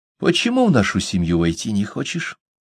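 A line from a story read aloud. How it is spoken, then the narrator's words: Gentle smiling question. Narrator (Russian): ласково улыбаясь, спросила Хивгук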